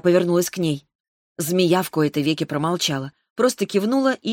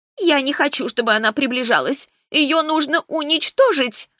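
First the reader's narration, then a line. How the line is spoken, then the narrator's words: Wailing scream. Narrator (Russian): завопила Варна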